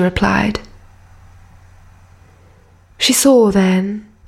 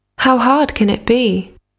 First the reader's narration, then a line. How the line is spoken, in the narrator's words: she said